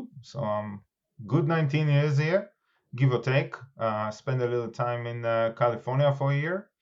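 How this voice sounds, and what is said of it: Israeli accent. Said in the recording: “if you don't guess the accent, I am originally from Israel”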